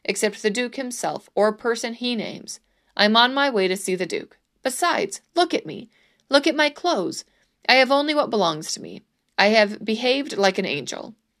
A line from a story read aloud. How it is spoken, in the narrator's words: Sancho snapped